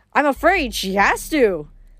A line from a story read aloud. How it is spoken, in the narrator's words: the right face said cheerfully